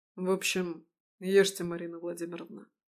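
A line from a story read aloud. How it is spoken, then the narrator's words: Dry. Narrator (Russian): сказал он сухо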